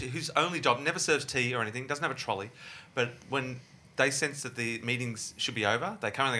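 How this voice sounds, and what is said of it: Usual voice. Nothing is said of it.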